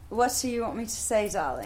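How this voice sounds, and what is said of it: Put-on English accent, fairly good. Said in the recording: “Try and do an English accent ... That's actually not too bad ... pretty good ... I just am mimicking you.”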